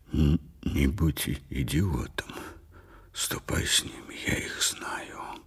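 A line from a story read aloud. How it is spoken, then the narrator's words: Whisper through barely parted lips. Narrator (Russian): Оллер прошептал, почти не разжимая губ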